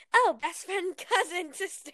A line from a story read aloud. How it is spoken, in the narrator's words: I said happily